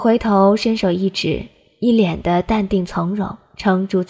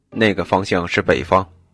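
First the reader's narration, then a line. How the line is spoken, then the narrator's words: Cold. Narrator (Chinese): 他冷声道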